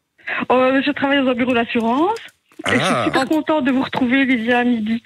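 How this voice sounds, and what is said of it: Slight regional French accent. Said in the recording (French): “T'as entendu un petit accent”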